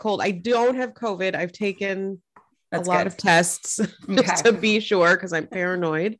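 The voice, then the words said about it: Congested voice from a cold. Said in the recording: “I have a cold. I think everyone can know. Everyone knows. Everyone can tell.”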